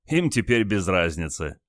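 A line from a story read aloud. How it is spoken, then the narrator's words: Chuckling. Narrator (Russian): хохотнул командир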